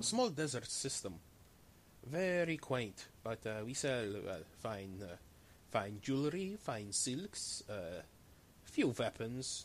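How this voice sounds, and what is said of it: Shifting put-on character accents. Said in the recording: “this guy's going through every accent in the book ... It beats any accent I've ever done”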